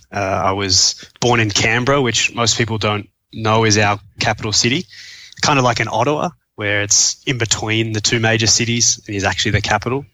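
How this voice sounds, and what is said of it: Australian accent. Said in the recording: “you'll be able to tell from my accent that I'm from Australia”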